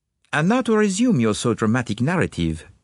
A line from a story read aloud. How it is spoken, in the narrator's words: said Poirot